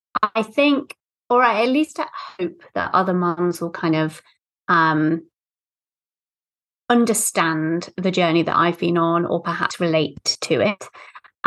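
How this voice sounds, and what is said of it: British accent. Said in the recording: “as you can tell from my accent, I'm British”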